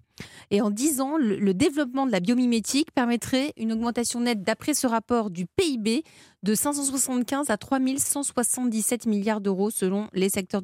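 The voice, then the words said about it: Italian accent speaking French. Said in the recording (French): “on entend à votre accent italien”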